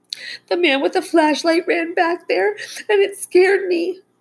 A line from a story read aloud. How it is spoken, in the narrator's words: she whimpered